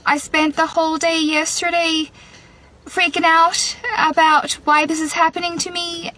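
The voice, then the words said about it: Irish accent. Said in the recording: “I woke up with an Irish accent ... foreign accent syndrome”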